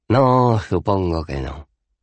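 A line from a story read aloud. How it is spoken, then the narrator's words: Sighed. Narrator (Spanish): suspiró Cohen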